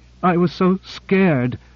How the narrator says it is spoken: she sobbed

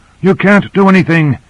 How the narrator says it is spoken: he panted

